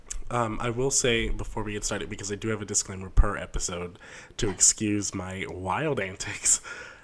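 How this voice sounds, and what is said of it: Raspy, sick-sounding voice. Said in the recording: “I am sick as a goat on a Tuesday ... I'm sorry if I sound weird ... Very raspy.”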